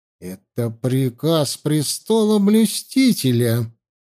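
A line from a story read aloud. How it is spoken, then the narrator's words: Seething, through clenched teeth. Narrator (Russian): закипая с каждым его словом, процедил царедворец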